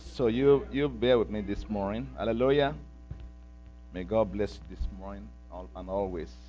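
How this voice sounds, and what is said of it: Heavy Nigerian English accent. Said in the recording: “I just came back from Nigeria now, from Africa. So my accent might be pretty heavy a little bit ... please listen very close to my accent”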